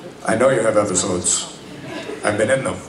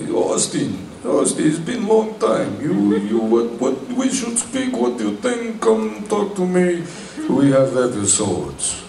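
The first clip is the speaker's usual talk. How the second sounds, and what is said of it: Slow Israeli accent, poorly done. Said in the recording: “I'm going to slaughter this, I'm not very good, but they have very typical, you know, Israeli, very slow, you know, accent. That's more Russian”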